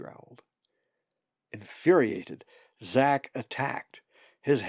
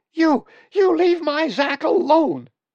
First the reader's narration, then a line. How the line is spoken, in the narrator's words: She screamed